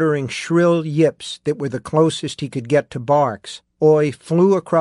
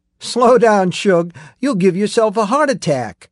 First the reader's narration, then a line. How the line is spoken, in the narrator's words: Susanna shouted, laughing